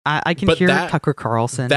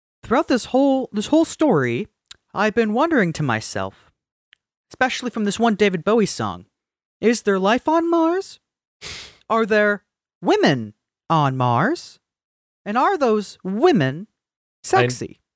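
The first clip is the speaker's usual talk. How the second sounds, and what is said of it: Imitates another person's voice. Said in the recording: “doing a Tucker Carlson impression, but that sounds just like every William Shatner cover song”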